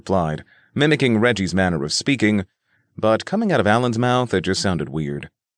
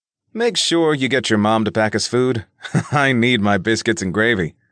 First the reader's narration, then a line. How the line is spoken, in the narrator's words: Nick laughed